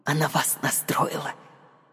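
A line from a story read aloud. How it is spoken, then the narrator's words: Whisper. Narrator (Russian): Прошептала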